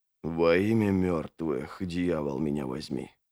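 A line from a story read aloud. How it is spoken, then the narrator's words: Whispering. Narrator (Russian): прошептал Логин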